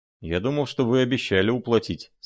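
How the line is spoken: Plain. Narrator (Russian): сказал я

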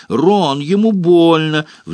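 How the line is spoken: Shrill shriek. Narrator (Russian): взвизгнула Гермиона

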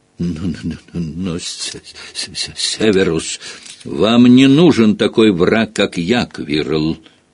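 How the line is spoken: Menacing. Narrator (Russian): угрожающе произнес Снейп

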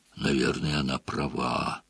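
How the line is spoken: Hoarse croak. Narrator (Russian): прохрипел Хагрид

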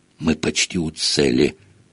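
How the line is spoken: Feverish whisper. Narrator (Russian): вдруг лихорадочно зашептал Рон

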